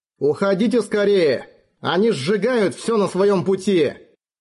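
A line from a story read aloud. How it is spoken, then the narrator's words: Young man's urgent shout. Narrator (Russian): Юный офицер крикнул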